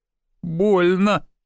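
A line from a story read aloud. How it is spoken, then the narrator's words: Lisping. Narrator (Russian): прошепелявила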